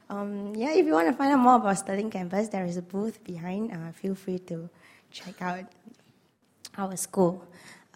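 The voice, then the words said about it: Hoarse, strained voice. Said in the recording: “I lost my voice, so I sound like this today”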